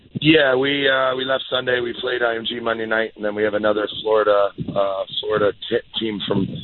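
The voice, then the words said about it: Hoarse, worn-out voice. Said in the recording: “you can tell my voice is gone. Been a lot of screaming and yelling”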